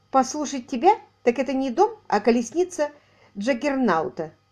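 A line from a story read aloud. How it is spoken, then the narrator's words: Strained laugh. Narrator (Russian): Рейф натянуто рассмеялся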